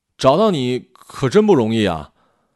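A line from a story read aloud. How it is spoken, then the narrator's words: Loud shout across street. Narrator (Chinese): 隔着马路对他大声喊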